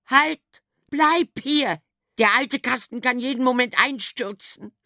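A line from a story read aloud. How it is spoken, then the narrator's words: Mother screaming. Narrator (German): schrie die Dame, seine Mutter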